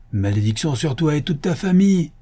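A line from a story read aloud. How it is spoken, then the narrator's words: Exclaiming. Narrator (French): s'écria-t-il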